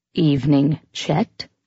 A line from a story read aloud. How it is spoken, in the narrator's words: she said in a measured tone